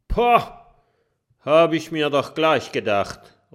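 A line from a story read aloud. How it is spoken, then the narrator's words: Calling out. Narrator (German): ruft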